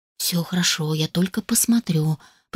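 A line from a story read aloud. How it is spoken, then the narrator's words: Barely audible whisper. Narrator (Russian): прошептал едва слышно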